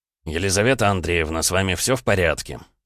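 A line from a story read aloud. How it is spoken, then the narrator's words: Calm inquiry. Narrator (Russian): Спокойно осведомился он у девушки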